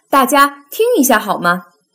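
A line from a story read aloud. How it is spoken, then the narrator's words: Sudden loud call. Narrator (Chinese): 爸爸突然大声叫道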